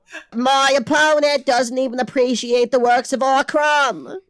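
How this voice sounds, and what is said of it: Yelling JFK impression, Boston accent. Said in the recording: “I am busting out these impressions today ... I didn't realize I had a JFK ... it's mostly just yelling in a Boston accent ... I'm just doing JFK from Clone High”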